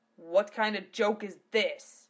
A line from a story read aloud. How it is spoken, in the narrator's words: Gav thundered